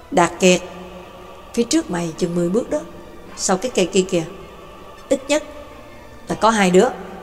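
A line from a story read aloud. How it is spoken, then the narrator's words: Soft quiet voice. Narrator (Vietnamese): Hồ Tử khẽ nói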